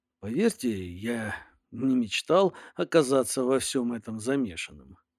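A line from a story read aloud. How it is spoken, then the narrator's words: Embarrassed young man's mutter. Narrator (Russian): буркнул смущенно молодой человек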